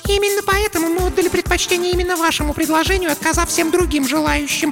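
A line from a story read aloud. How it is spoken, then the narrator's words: Squeaky. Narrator (Russian): пискнула Марлис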